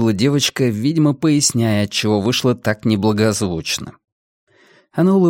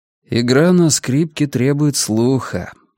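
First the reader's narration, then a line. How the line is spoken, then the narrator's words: Gentle voice. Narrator (Russian): ласково сказал Аксель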